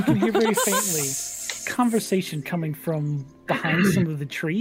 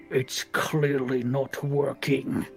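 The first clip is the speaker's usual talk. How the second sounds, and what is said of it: Deep character voice. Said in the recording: “deep voice”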